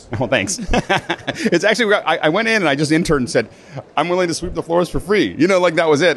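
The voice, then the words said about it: Radio voice. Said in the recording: “you do have a radio voice.”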